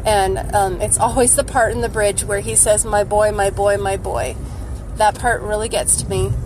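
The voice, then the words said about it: Sick, unwell-sounding voice. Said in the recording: “sorry for my voice. I'm just not feeling good.”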